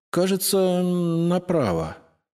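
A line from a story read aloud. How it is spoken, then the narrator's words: Uncertain. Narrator (Russian): неуверенно ответила девушка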